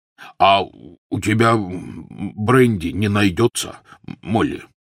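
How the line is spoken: Trembling voice. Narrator (Russian): спросил дрогнувшим голосом Хагрид

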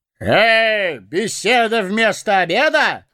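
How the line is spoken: Ringing shout. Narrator (Russian): звонко выкрикнул он

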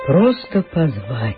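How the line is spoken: Sighed. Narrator (Russian): вздохнула Эва

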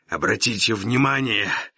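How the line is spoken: Rasped hoarsely. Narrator (Russian): прохрипел мой каторжник

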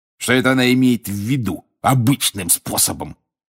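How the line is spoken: Snorting. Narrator (Russian): фыркнул он

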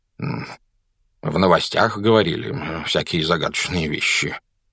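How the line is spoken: Muttered. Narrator (Russian): пробормотал мистер Дурсль

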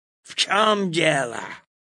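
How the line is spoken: Angry question. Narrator (Russian): злобно спросил он

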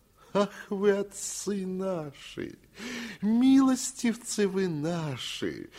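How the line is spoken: Tearful, touched singsong. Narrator (Russian): заговорил он нараспев и с таким умилением на лице, что вот-вот, казалось, слезы брызнут

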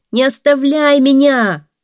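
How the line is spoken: Shouting again. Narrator (Russian): снова закричал человек

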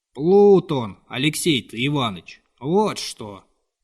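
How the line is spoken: Dry old man's voice. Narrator (Russian): повторял старик каким-то сухим голосом

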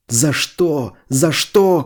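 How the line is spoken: Shouting. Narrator (Russian): кричал он

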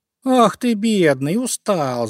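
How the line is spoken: Laughing. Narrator (Russian): засмеялся Зайка Петя

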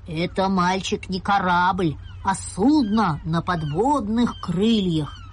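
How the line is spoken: Proud, stern man. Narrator (Russian): гордо и строго сказал дяденька

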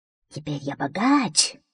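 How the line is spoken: Whispered. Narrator (Russian): шептал он

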